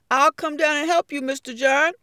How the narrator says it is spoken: pleaded

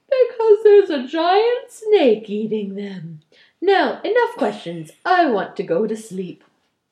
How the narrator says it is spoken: He said sleepily

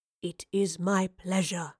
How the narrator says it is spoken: he whispered

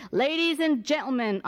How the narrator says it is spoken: hollered over the mic

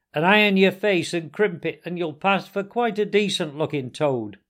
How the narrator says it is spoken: she called out

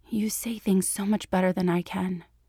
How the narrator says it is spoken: she whispered

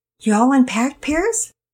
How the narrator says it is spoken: Penelope asked sweetly

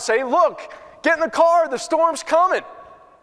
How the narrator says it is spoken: people in the car yelling

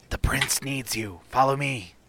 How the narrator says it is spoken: whispers in Elven

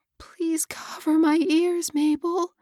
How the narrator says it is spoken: she pleaded

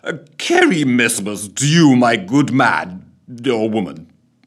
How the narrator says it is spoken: slurred

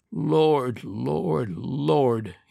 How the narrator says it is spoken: muttered

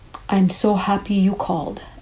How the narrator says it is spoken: Anna exclaimed

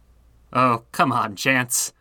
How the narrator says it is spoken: Morgan chuckled

